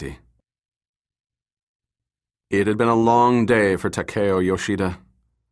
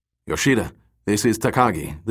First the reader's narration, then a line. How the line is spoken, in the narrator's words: deep voice of his foreman grumbled